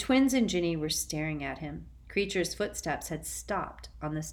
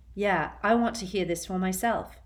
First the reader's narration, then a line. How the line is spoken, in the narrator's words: said George